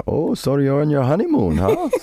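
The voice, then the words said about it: Generic put-on foreign accent. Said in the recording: “I don't know what accent that was. That was just random foreign accent.”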